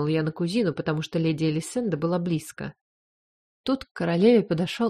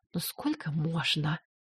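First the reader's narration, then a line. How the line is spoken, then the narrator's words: Anguished whisper. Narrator (Russian): страдальчески зашептала Адиль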